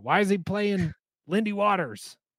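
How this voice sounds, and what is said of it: Imitates another person's voice. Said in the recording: “That's how I imagine that person sounds too ... That was my Taylor impression.”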